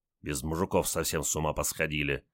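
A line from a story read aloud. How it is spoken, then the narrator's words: Engineer grumbling. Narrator (Russian): проворчал инженер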